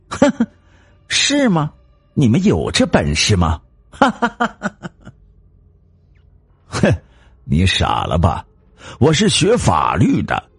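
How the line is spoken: Laughing wildly. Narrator (Chinese): 王大贵的老婆 狂笑

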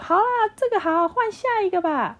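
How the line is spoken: Shrieking. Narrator (Chinese): 有人尖叫的说

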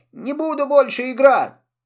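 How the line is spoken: Crying shout. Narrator (Russian): Он заплакал, и крикнул

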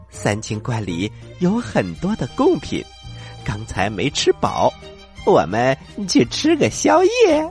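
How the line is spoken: Quiet, low voice. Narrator (Chinese): 悟空小声的说

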